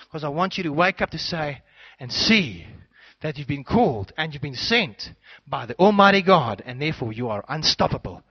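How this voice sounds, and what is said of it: Shouting, loud excited preaching. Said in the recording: “I'm passionate and I'm getting excited. And I don't always scream, but sometimes like this ... that's why I'm shouting today ... I'm gonna preach louder. I'm gonna shout more”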